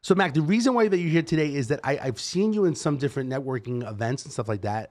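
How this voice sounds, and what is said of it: New York accent. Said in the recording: “I'm from New York ... I know our accents sometimes seem to be ... Abrasive ... I can't lose the accent.”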